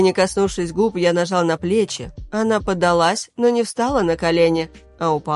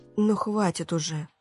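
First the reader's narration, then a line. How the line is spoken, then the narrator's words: Whisper. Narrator (Russian): прошептала она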